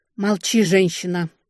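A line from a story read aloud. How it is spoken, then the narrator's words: Happy breathy exhale. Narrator (Russian): счастливо выдохнула я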